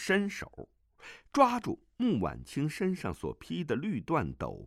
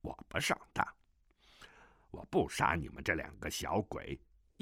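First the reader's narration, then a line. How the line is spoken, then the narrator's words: Villain muttering. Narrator (Chinese): 南海恶神喃喃地道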